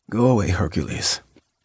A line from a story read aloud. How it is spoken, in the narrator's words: mumbled